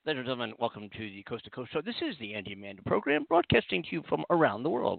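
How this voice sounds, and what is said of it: Serious newscaster voice. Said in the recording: “let me get my serious news voice.”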